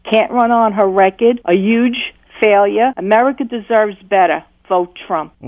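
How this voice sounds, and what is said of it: Put-on Brooklyn accent. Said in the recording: “you should do voiceover, by the way. You're really good ... Brooklyn accent.”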